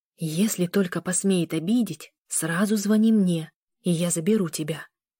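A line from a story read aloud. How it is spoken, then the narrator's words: Threatening whisper. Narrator (Russian): прошептала женщина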